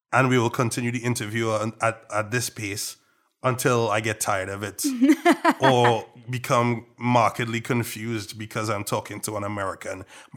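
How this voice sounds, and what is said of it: Trinidadian accent. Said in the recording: “this is not your real accent. You are a fake. ... So I will switch to my Trinidadian accent,”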